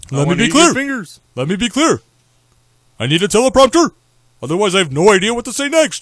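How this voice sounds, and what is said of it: Imitates another person's voice, Yogi Bear-like. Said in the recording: “my Barack Hussein Obama impersonation ... Sounds kind of like Yogi Bear. ... He sounds like Yogi Bear.”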